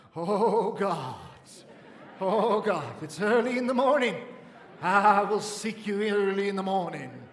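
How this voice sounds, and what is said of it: Exaggerated prayer voice with tremolo. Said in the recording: “change your accent before God... where did the tremolo come from? Why the tremolo all of a sudden?”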